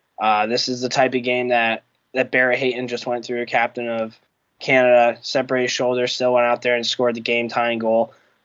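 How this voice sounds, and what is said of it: Congested, sick voice from cold. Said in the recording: “If you can tell by my voice, I'm really battling through on here ... I have a common cold that my body's really, really battling right now ... deal with me if I'm coughing and sneezing”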